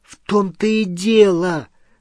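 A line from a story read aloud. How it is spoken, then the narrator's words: Exclaiming. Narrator (Russian): воскликнула Гермиона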